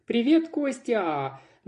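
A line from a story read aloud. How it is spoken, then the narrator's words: Sing-song purr. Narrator (Russian): нараспев промурлыкал представитель сексуальных меньшинств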